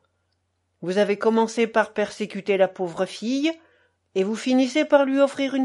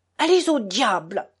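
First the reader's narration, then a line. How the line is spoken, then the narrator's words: Exclaimed. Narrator (French): s'écria Minoret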